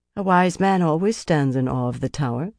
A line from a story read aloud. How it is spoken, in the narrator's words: Saritha said calmly